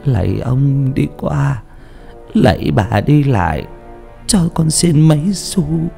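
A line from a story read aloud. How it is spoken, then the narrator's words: Moaning plea. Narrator (Vietnamese): miệng rên rỉ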